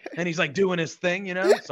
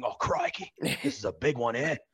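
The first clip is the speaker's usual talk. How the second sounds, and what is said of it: Put-on Australian accent, admittedly poor. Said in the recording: “Sorry, probably a terrible accent”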